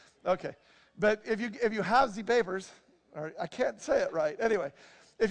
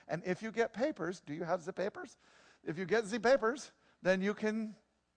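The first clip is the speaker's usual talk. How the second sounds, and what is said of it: Poor put-on German accent. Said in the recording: “That wasn't a very good German accent, was it? Okay, it was more kind of Hispanic almost, wasn't it?”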